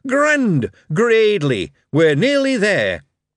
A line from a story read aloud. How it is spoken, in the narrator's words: shouted